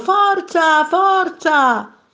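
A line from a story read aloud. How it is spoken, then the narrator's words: Crowd shouting. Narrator (Italian): i passeggeri e i turisti gridavano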